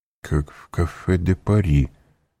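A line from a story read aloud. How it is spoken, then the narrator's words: Muttering. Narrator (Russian): пробормотал Данглар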